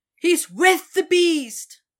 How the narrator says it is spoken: someone cried in horror

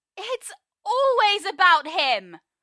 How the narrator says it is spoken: Merlin yells, his words spilling from some wretched place

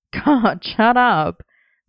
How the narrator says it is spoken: Merlin laughed

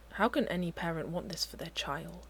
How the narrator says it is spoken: He murmurs

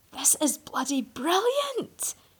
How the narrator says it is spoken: Merlin exclaimed, his enthusiasm almost visibly seeping out of his pores

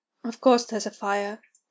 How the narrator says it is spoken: Ed muttered

